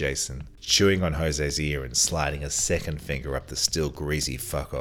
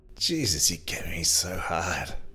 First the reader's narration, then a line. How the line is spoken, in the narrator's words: moaned Jose